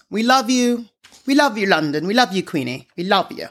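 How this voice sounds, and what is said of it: Attempted British accent. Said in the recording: “I don't know if that was a good accent.”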